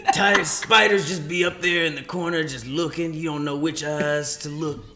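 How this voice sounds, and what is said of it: Impression of comedian Tony Baker. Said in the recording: “This is my impersonation, Tony Baker.”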